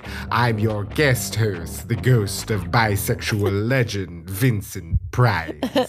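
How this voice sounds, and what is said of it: Vincent Price impression. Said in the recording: “your Vincent Price impression ... That was an impression.”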